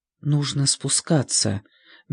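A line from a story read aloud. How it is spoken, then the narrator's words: Soft. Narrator (Russian): мягко произнес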